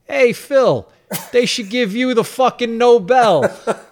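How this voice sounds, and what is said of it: Exaggerated New York accent, shouted. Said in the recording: “I put on a super New York accent ... I just shouted like at 30 feet”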